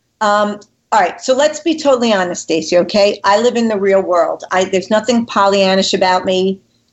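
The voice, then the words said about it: New York accent. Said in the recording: “i might live in connecticut but i'm a native new yorker i'm sure everybody's shocked with this wonderful accent i have here”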